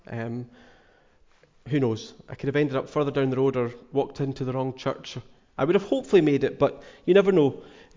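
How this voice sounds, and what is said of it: Glaswegian Scottish accent. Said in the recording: “I'm from Glasgow. You've probably noticed I've not got the North Harris accent. From Glasgow originally.”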